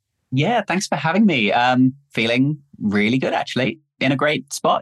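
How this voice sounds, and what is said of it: Noticeable foreign accent. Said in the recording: “people might guess that you're from a certain part of the world with that lovely accent”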